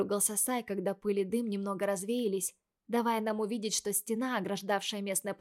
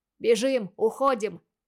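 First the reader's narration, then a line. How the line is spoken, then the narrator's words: Men shouting. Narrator (Russian): закричали мужчины внизу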